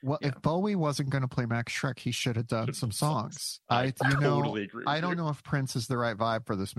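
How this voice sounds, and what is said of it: Usual voice. Nothing is said of it.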